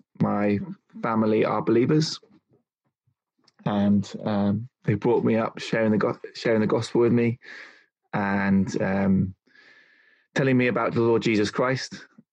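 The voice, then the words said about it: English accent, not Scottish. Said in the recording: “I was brought up in London, in England. As you can tell, I haven't got a Scottish accent.”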